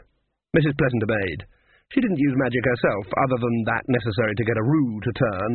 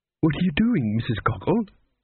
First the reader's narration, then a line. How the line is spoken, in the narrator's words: said the cook anxiously